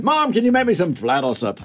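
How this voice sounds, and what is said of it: Failed German accent, Sean Connery-like. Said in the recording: “my German accent ... that's not German. It's more Irish. ... That's Southern, whatever it is. ... It's his Sean Connery, which he always falls into.”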